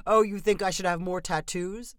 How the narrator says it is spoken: the man replied with another laugh

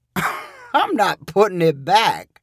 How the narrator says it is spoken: replied Sonny with a laugh

